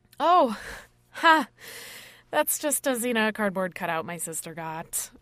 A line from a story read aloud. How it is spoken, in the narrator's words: I said nervously